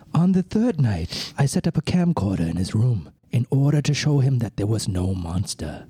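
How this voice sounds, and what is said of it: Inconsistent put-on British accent. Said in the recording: “your British accent has turned into Dracula ... It started out kind of British, then he started throwing some weird, like, Scottish-Irish stuff in it, and then it became Bostonian for some reason ... I got the Boston vibe”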